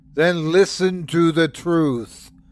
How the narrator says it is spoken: said Sukaz, his voice raising

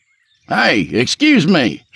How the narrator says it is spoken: shouted Matthews

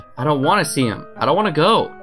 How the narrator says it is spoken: exclaimed

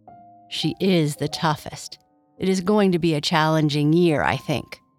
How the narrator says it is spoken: Kai Kai said with a sigh

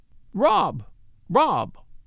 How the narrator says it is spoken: She cried aloud

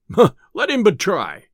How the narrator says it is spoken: cried the tinker

